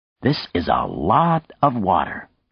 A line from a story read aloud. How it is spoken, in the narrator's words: Nadia exclaimed